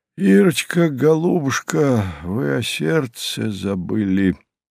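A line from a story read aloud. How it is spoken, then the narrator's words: Sad wry smile. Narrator (Russian): грустно усмехнулся Иван Иванович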